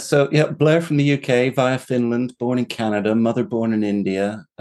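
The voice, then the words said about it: British English accent. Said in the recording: “You're like 10% smarter just because of the accent.”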